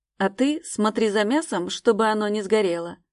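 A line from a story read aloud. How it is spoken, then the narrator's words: Grumble. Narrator (Russian): проворчал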